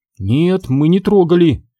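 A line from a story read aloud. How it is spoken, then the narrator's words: Frightened mutter. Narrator (Russian): испуганно пробормотала Сьюзен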